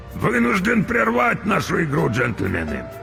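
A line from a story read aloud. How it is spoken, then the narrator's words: Hoarse. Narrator (Russian): хрипло проговорил Крюк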